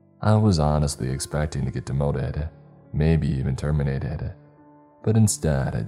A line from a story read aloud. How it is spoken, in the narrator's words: Jennifer sighed